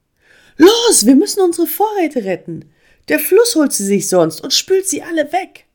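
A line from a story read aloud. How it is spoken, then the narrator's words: Calling out to group. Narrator (German): rief Emma der ganzen Bande zu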